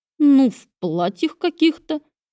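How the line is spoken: Uncertain. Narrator (Russian): ответил я неуверенно

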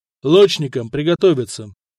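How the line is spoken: Quiet command. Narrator (Russian): негромко сказал Стоян

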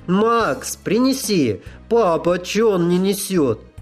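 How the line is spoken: Cheerful girl's shout. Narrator (Russian): Девчоночий голос весело крикнул

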